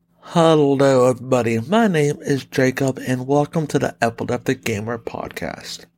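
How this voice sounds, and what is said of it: Weird-sounding voice, sore throat. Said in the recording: “my voice is going to sound very weird because I am not feeling the best right now ... my sore throat”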